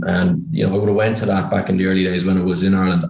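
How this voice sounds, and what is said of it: Irish accent. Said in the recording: “You can probably tell by my accent I'm Irish.”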